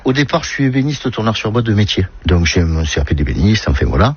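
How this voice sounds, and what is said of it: Marseille accent. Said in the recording (French): “Cet accent, il vient d'où ? ... De Marseille, Marseille centre.”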